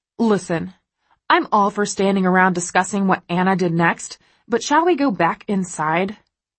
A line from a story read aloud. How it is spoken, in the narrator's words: Kate snaps